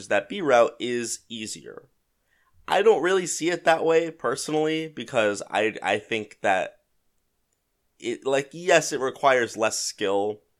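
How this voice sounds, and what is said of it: Congested, slightly sick-sounding voice. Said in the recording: “I sound a little sick ... At worst, I have like a cold. I just feel a little congested this morning. I think I woke up with like a head cold”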